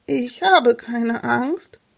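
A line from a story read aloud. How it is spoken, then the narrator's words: Trembling voice. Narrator (German): erklärte Jonas mit zitternder Stimme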